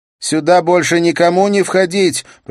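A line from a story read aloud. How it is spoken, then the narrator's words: Shout. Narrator (Russian): прокричала она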